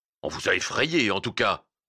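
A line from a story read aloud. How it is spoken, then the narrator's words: Merchant's unpleasant sneer. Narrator (French): ricana le marchand d'une manière peu sympathique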